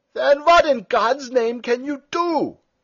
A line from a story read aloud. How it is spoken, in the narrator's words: shouted Stumm